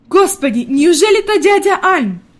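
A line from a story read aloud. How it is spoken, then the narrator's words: Pleasantly surprised exclamation, grandmother. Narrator (Russian): воскликнула бабушка в приятном удивлении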